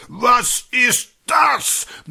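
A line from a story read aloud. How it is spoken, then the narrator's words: Thundering, raging. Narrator (German): Einer der Direktoren tobt durch die Zimmer, donnernd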